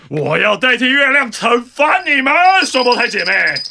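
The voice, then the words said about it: Explosive, forceful delivery. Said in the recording (Chinese): “用充满爆发力的声音说”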